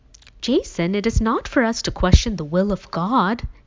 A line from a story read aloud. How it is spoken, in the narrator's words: he finally exclaimed